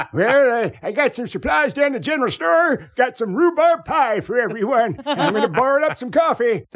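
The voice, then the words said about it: Old gold rush prospector voice. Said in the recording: “doing an impression of like a prospector from the gold rush”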